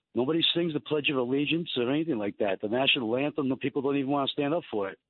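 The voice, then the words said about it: New York Italian-sounding accent. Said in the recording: “I love your accent... Did people tell you that you have like the quintessential New York slash Italian voice?”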